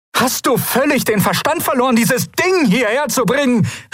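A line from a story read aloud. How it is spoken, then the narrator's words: Calling out. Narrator (German): rief sie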